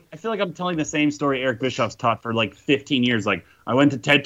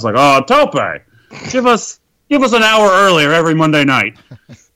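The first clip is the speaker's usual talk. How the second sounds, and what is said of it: Ted Turner impression, sounding like Rip Torn. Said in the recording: “That was my Ted Turner impression. ... I don't think it was good. Very good. ... It sounded like Rip Torn, actually.”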